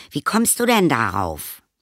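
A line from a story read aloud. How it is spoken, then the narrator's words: Called out. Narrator (German): rief Anton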